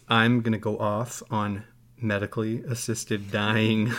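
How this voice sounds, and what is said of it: Low, flat late-night radio voice. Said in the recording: “it's a late night FM voice. And so you drop your voice like this. ... You don't have an inflection at the top of your statement. You just stay very neutral.”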